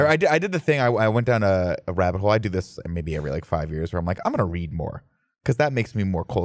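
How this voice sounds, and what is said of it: Usual voice. Nothing is said of it.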